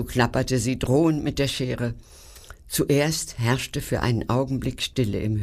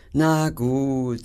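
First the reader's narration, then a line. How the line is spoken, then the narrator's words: Sigh. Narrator (German): seufzte Schnotz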